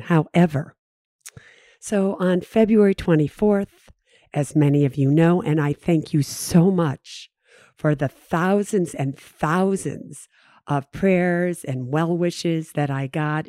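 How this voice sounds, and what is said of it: Weakened voice, recovering from voice loss. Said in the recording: “lose my voice ... it'll get better as time goes on”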